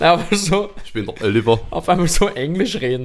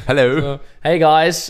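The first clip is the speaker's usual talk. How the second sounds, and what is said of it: Put-on Californian American English accent. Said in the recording (German): “du klingst richtig unsympathisch ... ein bisschen stark. kalifornisch eigentlich ja, mehr gewesen ja, als ja, Florida”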